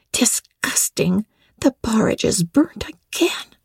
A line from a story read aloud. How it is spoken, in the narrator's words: From the van of the profession, the tall girls of the first class, rose the whispered words